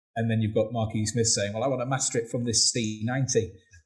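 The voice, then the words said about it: Put-on Manchester accent. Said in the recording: “Was that your Manchester accent? ... Damn good. ... Better than mine”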